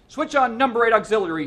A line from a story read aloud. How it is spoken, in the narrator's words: he shouted